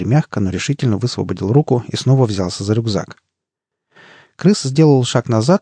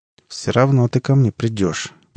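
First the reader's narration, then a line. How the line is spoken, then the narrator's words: Through gritted teeth. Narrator (Russian): процедил он сквозь зубы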